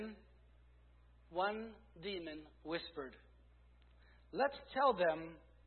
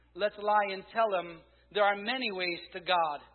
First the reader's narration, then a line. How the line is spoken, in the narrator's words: Another shouted